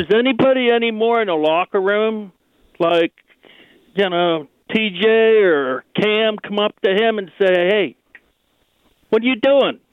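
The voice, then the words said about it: Pittsburgh accent. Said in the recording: “I think his accent told us that he's from Pittsburgh.”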